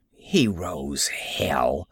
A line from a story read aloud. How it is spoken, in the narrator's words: she muttered